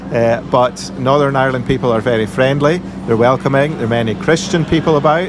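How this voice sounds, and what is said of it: Scottish accent with Northern Irish twang. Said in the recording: “your Scottish accent has started to get a bit of a Northern Irish twang ... they say, you sound very Northern Irish”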